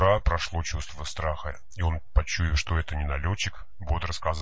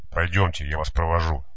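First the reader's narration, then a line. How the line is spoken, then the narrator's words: Softening grumble. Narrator (Russian): Серая шинель уже смягчаясь, пробурчала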